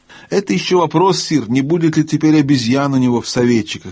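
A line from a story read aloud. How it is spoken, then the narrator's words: Plain. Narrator (Russian): сказал гном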